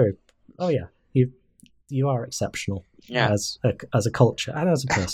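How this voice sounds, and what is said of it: Usual voice. Nothing is said of it.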